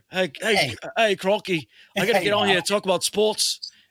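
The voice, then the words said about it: Put-on Australian accent. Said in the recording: “That's actually a pretty good Australian accent.”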